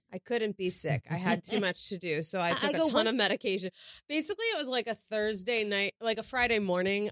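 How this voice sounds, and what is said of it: Lowered, sick-sounding voice. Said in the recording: “my voice is down here today ... I have a sinus infection”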